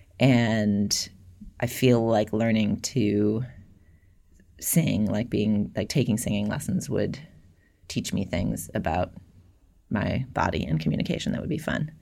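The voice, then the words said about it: Vocal fry. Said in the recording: “I have vocal fry, about which I am not ashamed, but which is a true quality of my voice”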